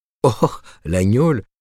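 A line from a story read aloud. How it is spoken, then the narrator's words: Laughing. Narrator (French): fit-il en riant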